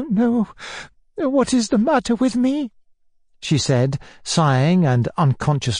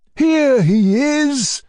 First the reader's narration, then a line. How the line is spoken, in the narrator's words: cried my uncle on my appearance